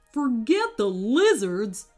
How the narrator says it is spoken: snapped Wayne

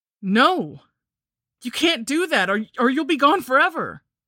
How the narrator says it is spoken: I shouted

